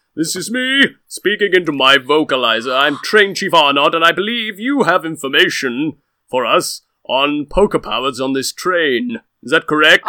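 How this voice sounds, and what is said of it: Artificially deep, bass-heavy voice. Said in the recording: “down into the bass”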